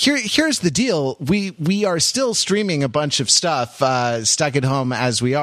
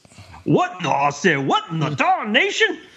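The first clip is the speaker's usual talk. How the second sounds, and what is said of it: Put-on Southern accent. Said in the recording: “We're doing Southern accents. Not this kind of Southern accent. No, not redneck Southern accent. Something more refined.”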